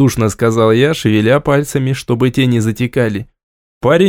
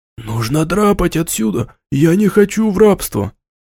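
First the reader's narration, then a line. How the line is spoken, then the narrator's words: Whispered declaration. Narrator (Russian): шепотом заявил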